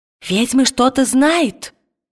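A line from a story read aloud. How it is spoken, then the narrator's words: Exclaimed. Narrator (Russian): воскликнул другой священник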